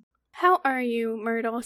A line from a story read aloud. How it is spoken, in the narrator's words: said Hermione in a falsely bright voice